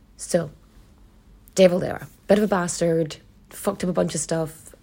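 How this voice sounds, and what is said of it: Own accent, i's sound like e's. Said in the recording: “my accent pronounces my eyes like e's to other people ... my accent is part of my identity and it's a lovely accent”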